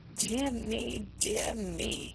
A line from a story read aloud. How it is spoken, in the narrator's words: he whispered with affected gallantry